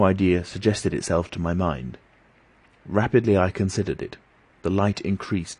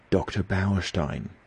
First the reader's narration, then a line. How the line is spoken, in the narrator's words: whispered